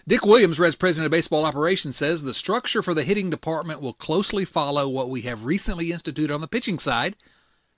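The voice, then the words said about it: Noticeable regional accent. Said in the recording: “my ridiculous accent”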